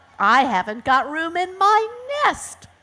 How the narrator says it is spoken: screeched the hawk

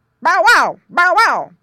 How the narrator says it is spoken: barked Don

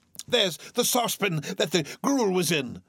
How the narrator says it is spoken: cried Scrooge

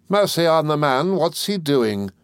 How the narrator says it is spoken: cried my aunt impatiently

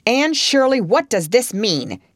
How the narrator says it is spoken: he said angrily

